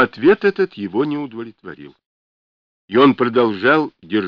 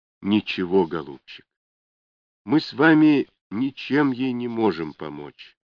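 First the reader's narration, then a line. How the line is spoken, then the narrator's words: Sad objection. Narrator (Russian): печально возразила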